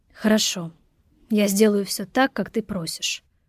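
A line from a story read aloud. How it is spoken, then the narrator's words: Sighing. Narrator (Russian): вздохнул он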